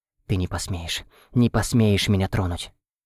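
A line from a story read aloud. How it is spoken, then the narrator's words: Sobbing whisper. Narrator (Russian): прошептала она, всхлипнув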